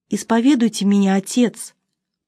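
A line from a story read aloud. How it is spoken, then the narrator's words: Unknown voice whispering. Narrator (Russian): прошептал чей-то голос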